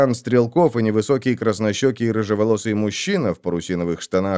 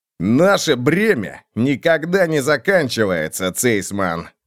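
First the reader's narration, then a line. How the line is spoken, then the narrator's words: Barked. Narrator (Russian): рявкнул он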